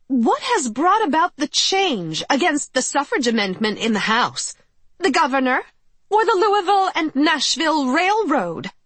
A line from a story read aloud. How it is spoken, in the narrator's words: she demanded loudly